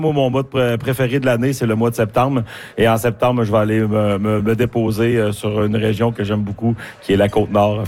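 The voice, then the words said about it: Strong regional Quebec French accent. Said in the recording (French): “Je vois que vous appuyez l'accent, vous parlez de votre coin de pays”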